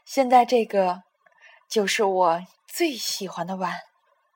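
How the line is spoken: Mother laughing. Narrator (Chinese): 妈妈笑着说

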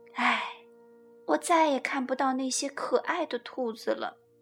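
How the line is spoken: Sighing. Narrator (Chinese): 米娜叹了口气说

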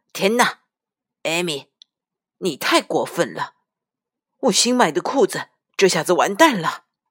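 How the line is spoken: Shout. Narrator (Chinese): 爸爸大喊着

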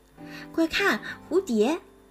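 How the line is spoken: Amazed exclamation. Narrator (Chinese): 卢比惊叹道

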